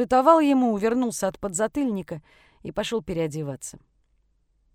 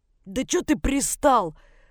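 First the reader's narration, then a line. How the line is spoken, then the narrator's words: Hoarse, in pain. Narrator (Russian): хрипел Денис, которому руку чуть ли не до ушей заломили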